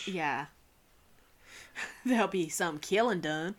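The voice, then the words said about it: Put-on accent, done well. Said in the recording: “you did it with the accent. That's good.”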